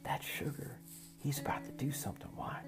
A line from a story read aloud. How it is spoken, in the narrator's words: Taco whispered